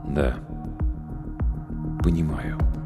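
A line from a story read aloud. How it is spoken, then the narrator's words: Quiet, matching tone. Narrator (Russian): также в тон негромко ответил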